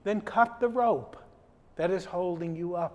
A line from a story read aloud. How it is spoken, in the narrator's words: said the voice